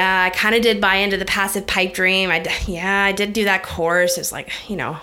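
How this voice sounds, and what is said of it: Usual voice. Nothing is said of it.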